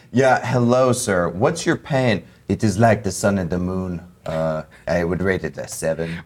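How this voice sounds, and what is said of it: Put-on French accent. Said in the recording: “Why is your Native American French?”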